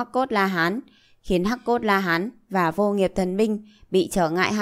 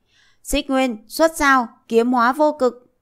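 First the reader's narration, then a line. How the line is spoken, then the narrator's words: Loud battle cry. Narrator (Vietnamese): Diệp Chi Thu hét lớn một tiếng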